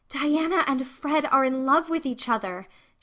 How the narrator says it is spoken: she gasped

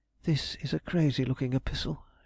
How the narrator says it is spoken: she muttered

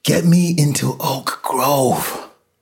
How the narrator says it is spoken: Lois gasped

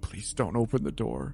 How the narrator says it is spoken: Holden whispered

